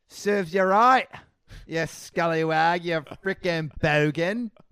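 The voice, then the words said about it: Put-on Australian accent. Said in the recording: “serves you right in an Australian accent”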